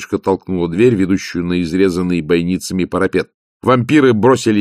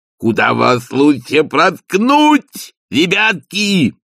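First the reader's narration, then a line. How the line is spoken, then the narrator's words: Ecstatic yell. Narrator (Russian): восторженно завопил он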